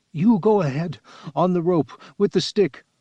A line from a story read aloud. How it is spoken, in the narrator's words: he gasped